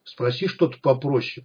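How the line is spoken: Hissed. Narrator (Russian): прошипел сталкер

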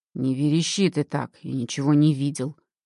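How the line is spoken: Grumble. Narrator (Russian): буркнул Карл

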